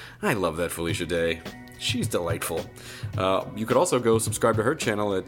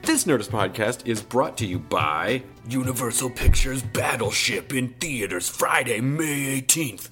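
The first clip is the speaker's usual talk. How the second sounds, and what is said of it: Resonant movie trailer voice. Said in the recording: “That's the best cinema voice that I can do. That this is the trailer voice right now. It's not bad, because I feel like I'm getting a little bit of a cold and it really gives it that resonance.”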